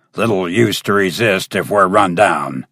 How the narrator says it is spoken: he grunted

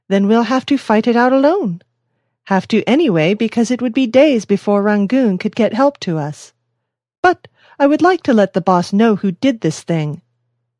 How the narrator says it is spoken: said the young magistrate cheerfully

